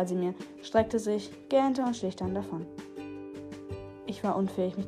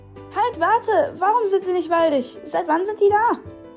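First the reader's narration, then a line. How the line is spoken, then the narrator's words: Calling after. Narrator (German): rief hinterher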